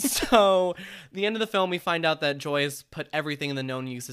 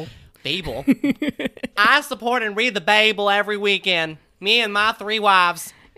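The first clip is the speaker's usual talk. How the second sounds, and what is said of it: Put-on Midwestern accent. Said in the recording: “You do keep switching into some sort of Midwestern accent almost every episode now.”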